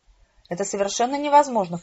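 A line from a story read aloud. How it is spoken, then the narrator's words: Snorted. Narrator (Russian): фыркнул мой кузен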